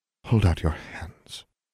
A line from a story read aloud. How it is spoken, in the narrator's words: Miss Grimm said slowly, and very, very softly